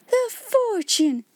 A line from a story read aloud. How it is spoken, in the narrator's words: cried Miss Minchin, and she really lost color as she uttered the exclamation